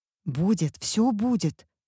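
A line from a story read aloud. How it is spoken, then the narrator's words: Hissing in unison. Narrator (Russian): дружно зашипели мы, мамы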